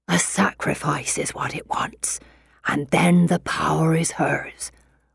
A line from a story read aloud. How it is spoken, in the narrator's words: Mother whispers